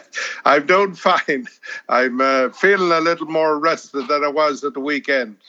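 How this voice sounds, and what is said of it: Strong Irish accent. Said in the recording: “if you listen to him very carefully, you might think that he's never left Ireland. His accent's very strong.”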